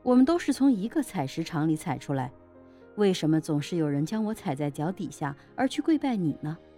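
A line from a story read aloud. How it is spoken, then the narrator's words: Statue speaking with a smile. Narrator (Chinese): 佛像笑了笑说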